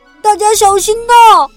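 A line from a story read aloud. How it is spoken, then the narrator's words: Loud shout. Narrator (Chinese): 弟弟大声叫道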